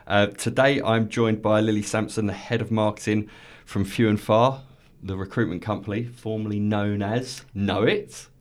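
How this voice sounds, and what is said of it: Congested voice from a cold. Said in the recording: “I've got a bit of a cold, so if there's any more sniffs than usual”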